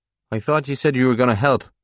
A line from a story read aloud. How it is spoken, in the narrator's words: Paul returns a little sharply